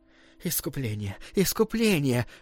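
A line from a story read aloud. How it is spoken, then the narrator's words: Uncertain group whisper. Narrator (Russian): шептали неуверенно остальные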